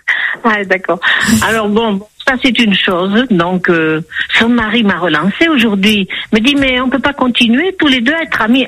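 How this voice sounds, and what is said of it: Slight southwestern French accent. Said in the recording (French): “Vous avez l'accent du Sud, à Toulouse? ... Je reconnaissais le petit accent du sud-ouest.”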